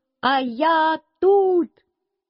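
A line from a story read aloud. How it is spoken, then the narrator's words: Shouted. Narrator (Russian): крикнул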